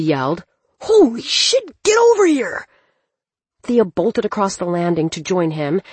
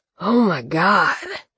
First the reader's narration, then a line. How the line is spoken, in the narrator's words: Cleaver breathed